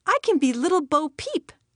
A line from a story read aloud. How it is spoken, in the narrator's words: she exclaimed